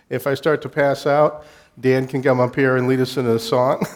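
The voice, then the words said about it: Congested, stuffy voice. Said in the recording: “I'm just getting over a cold, so if I sound congested, I am.”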